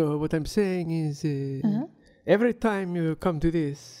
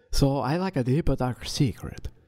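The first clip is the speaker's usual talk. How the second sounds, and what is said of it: Strange vaguely European-Asian accent. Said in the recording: “some sort of strange accent that may be European or not ... it sounds like a little Transylvanian Asian”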